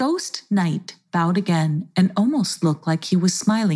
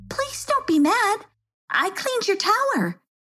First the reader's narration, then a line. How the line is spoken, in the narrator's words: she blurted out